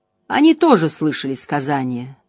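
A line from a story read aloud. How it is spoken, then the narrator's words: Dry. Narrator (Russian): добавила она сухо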